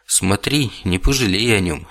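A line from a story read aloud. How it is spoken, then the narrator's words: Unexpectedly sad. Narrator (Russian): неожиданно грустно сказала мне вслед тетя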